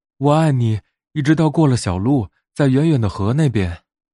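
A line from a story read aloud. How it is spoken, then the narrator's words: Small animal shouting. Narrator (Chinese): 小兔子大叫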